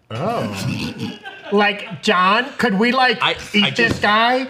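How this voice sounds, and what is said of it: Valley Girl voice. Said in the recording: “I want my symbiote to be full Valley Girl.”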